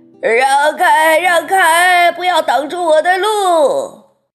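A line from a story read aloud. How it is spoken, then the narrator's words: Shouting. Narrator (Chinese): 一路上叫着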